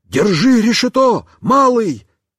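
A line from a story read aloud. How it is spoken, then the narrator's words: Shout. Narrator (Russian): Он крикнул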